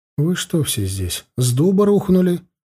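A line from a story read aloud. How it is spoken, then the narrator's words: Confused question. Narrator (Russian): растерянно спросил я их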